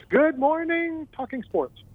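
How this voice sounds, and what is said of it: Imitates another person's voice. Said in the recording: “in my best Robin Williams voice.”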